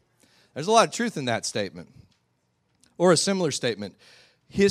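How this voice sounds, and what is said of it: Usual voice. Nothing is said of it.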